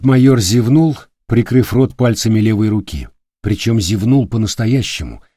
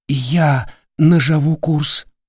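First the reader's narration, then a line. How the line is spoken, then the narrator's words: Terrified whisper. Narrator (Russian): прошептал бледный как мел рулевой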